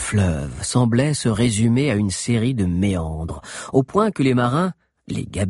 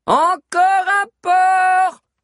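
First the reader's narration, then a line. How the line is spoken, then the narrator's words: Shouting. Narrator (French): cria Agnel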